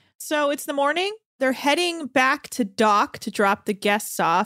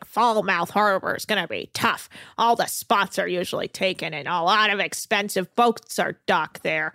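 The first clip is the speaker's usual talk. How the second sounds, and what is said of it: Imitates another person's voice. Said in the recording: “your Captain Lee impression”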